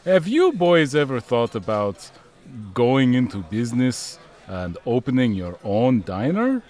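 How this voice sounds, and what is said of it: Foreign accent, W sounds like V. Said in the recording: “that's your accent? I'm very sensitive to accents. ... is it spelled V-A-F-F-L-E? ... a V symbol is just used to represent the sound of W”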